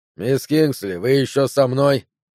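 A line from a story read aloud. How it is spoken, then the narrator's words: Snort. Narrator (Russian): хмыкнул он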